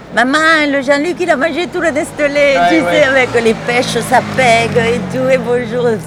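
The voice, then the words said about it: Put-on singsong southern French accent. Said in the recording (French): “l'accent du Sud ... C'est très chantant aussi, c'est magnifique”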